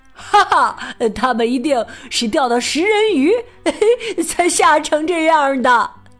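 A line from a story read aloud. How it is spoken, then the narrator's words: Hearty laughter. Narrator (Chinese): 卡梅利多哈哈大笑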